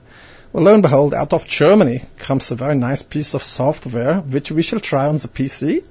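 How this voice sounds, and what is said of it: Put-on foreign accent. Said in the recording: “I will stop doing that accent now.”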